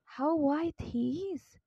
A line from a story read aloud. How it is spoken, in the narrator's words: she whispers